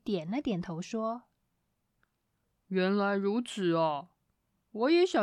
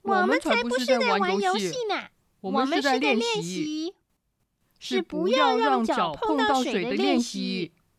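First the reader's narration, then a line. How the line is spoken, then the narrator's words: Two voices shouting together. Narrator (Chinese): 麋鹿和老鼠同时喊着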